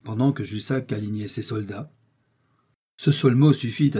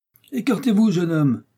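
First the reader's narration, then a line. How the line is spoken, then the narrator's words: Shout. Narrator (French): cria Jussac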